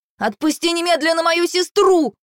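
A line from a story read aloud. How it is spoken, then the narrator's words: Shout. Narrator (Russian): крикнул Ал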